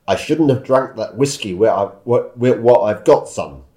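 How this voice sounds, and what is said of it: Weak put-on Scottish accent. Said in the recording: “sorry, my accent was not very good”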